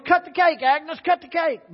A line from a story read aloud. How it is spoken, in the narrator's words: Everyone cheered, yelled